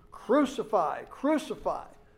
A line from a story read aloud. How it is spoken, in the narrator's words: chief priests and officials, they cried out, saying